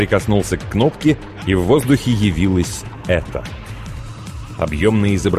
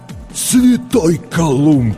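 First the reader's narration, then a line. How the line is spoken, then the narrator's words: Astonished breath. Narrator (Russian): выдохнул стилет, разинув от удивления рот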